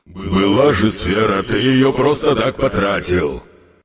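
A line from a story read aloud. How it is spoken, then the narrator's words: Displeased grumble. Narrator (Russian): недовольно проворчал Йонер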